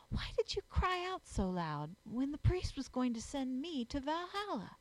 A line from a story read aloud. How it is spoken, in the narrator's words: whispered the child